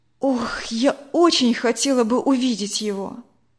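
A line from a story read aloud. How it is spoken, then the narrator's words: Sighing. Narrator (Russian): вздохнула Надя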